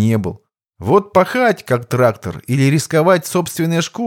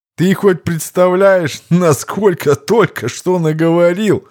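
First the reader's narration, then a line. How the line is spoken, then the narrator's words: Bursting chuckle. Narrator (Russian): Не выдержав, хохотнул Виктор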